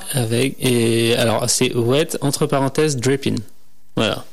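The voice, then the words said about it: Put-on accent on English words. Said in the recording (French): “Quel accent.”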